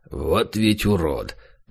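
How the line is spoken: Grumbling. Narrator (Russian): пробурчал он

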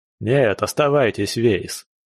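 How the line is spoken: Dry reply. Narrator (Russian): сухо ответил капралу

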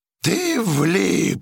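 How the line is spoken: Howling. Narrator (Russian): взвыл гидрант

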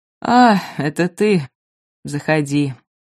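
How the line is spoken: Sad. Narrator (Russian): грустно сказал Альберт

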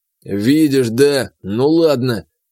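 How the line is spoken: Displeased grumbling. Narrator (Russian): послышалось недовольное ворчание Сарфата

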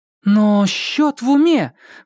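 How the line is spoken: Exclaiming. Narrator (Russian): воскликнула она

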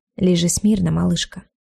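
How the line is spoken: Deceptively soft. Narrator (Russian): проговорил Кайл обманчиво мягко

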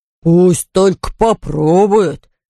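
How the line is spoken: Bear's growl. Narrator (Russian): прорычал медведь

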